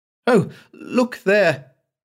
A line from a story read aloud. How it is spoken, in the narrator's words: she exclaimed